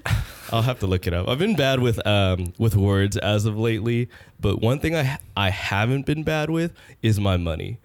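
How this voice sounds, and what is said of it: Nasal, croaky sick voice. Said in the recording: “I'm very very sick. ... my voice sounds very uh ... Nasally. ... croak.”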